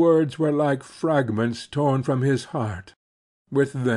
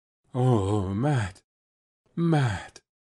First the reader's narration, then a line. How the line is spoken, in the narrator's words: he groaned